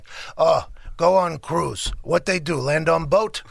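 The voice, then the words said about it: Imitating Janikowski's accent. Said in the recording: “Janikowski ... he's got like an accent.”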